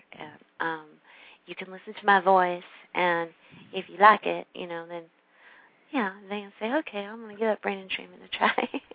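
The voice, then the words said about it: Slight Texas twang. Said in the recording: “that little accent coming out all of a sudden. That little Texas twang.”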